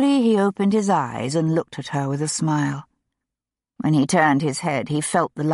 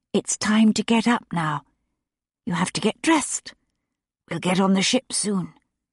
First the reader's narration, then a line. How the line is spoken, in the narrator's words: she said softly